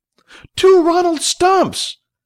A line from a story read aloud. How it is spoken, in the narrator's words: Gasps rose up from the crowd